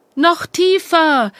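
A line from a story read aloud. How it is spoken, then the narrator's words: Calling out. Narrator (German): rief Theresa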